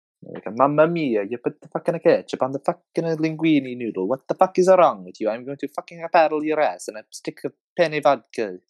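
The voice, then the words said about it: Exaggerated put-on Italian accent. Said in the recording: “I think a very good accent's Italian... It really helps me get the accent out”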